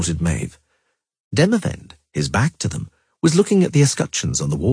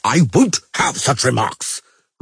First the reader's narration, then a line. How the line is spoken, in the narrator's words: roared Henselt, this time so loudly that not even a buffalo would have matched him